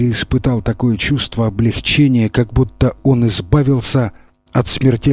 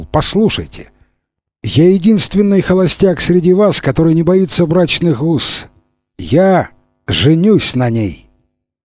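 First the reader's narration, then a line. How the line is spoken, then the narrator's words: Cheerful exclamation. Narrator (Russian): Весело хлопнув Генри по плечу, он воскликнул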